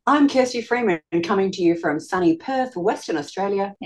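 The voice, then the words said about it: Australian accent. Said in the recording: “That sounded so Australian. ... I'd put it on the Australian accent”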